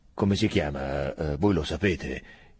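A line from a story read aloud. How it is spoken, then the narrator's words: Low-voiced question. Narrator (Italian): chiede a bassa voce Tronca ai soldati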